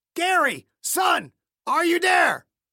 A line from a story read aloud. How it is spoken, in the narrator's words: Clayton screamed into the heavy wind